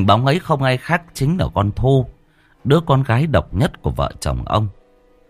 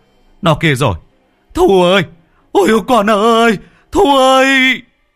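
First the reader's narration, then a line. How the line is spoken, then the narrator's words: Screaming over revving engine. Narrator (Vietnamese): Ông vừa rú ga vừa gào lên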